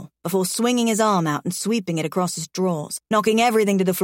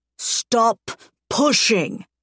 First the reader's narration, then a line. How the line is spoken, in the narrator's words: he growls